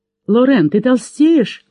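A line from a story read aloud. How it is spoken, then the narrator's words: Exclaiming. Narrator (Russian): воскликнула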